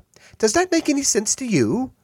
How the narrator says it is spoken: She sighed

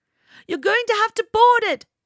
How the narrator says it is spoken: shouted Zenya

